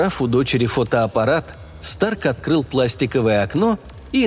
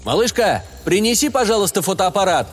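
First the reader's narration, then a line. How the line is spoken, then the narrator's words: Shout to another room. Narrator (Russian): уже обращаясь к дочери, которая находилась в своей комнате, крикнул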